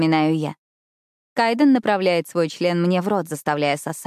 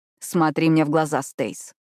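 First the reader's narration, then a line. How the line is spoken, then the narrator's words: Rough command. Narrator (Russian): грубо приказывает Кайт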